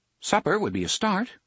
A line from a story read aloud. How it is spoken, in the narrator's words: Cuthbert said brightly